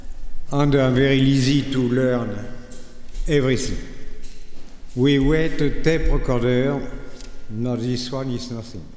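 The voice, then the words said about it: French accent. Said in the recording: “I'm sorry for my bloody accent. I'm French.”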